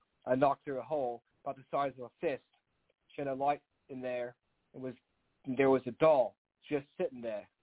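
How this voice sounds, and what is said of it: Deliberately poor put-on English accent. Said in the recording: “with my terrible English accent ... British accent.”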